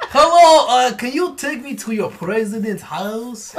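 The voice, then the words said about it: Put-on Russian accent. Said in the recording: “let's hear your Russian accent again ... That's Borat”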